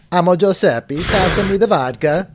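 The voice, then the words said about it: Put-on Russian Italian accent. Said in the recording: “I was trying to figure out what a Russian Italian accent would sound like”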